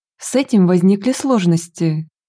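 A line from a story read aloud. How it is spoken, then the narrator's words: Sighing. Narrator (Russian): вздохнул Стефан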